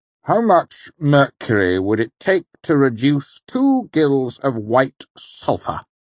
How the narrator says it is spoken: He asked pompously

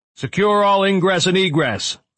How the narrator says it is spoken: shouted the commander

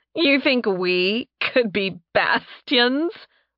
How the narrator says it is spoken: Mora asked, desperately trying to talk between peals of laughter

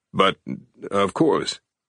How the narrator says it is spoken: Siegel stammered, trying to process the information

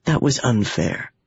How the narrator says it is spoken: he said softly

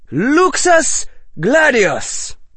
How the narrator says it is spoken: shrieked

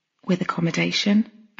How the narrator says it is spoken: I said quietly

